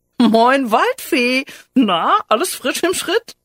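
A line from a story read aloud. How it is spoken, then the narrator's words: Giggling. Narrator (German): kicherte er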